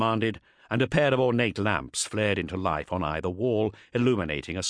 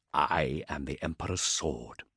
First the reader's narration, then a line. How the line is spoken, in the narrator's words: whispered